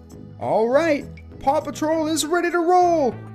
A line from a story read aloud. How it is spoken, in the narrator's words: Ryder exclaimed